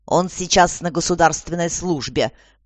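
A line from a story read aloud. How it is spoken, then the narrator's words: Grumbling. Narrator (Russian): пробурчала ее светлость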